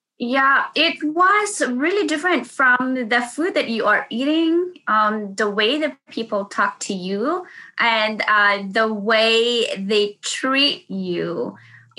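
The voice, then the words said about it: Thick non-native English accent. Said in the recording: “I do have an accent. I ha I really have a thick accent. My e, my e, my o, ooh, this kind of um, you know, the how you say the words.”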